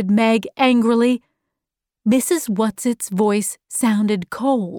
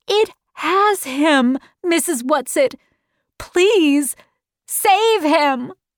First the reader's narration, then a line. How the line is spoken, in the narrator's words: cried Meg